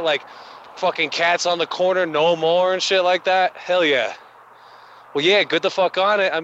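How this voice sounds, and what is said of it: Brooklyn accent. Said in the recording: “my grandmother was from Brooklyn, you know. That's where the accent comes out.”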